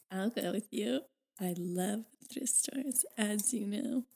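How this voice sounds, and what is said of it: Congested, stuffed-up voice. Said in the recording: “I have been a little bit sick though, so apologies if I sound stuffed up”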